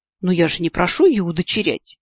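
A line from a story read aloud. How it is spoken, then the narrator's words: Exclaimed. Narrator (Russian): В ответ воскликнула я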